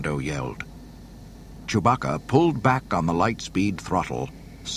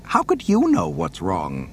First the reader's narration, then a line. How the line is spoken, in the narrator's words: the golden droid scoffed